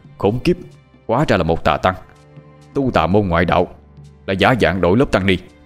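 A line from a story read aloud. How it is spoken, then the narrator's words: Angry muttering. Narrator (Vietnamese): Trương Tấn tức giận, mặt đỏ phừng phừng lẩm bẩm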